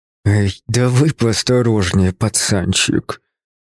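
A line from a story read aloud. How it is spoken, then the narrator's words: Hiss, authority gone. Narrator (Russian): Прошипел он наконец, но в его голосе уже не было прежней властности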